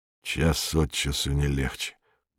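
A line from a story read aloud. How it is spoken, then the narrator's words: Muttering. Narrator (Russian): пробормотал Быков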